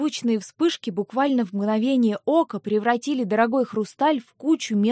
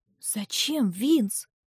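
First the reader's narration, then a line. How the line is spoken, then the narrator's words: Confused mutter. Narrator (Russian): пробормотала я растерянно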